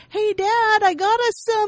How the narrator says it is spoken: yells into the house

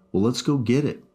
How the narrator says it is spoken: I said excitedly

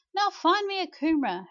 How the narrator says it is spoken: godmum cried out

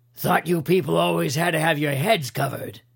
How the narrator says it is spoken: growled

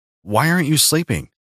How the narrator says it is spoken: I asked

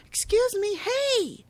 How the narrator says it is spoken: Alma yells over to them

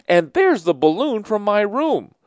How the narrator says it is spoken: A boy laughed

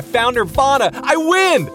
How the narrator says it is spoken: screamed

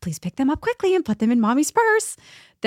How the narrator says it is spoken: My face turned bright red and I said to her quietly again

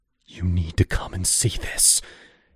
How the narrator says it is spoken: he gasped, fear twisting his face

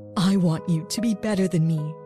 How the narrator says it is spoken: my mother said in a trembling voice

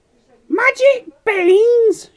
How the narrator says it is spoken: cried

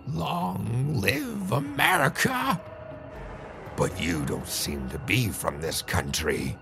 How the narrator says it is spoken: In a creepy, squeaky voice, he said

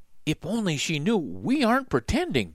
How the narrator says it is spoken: Jack whispered to Annie

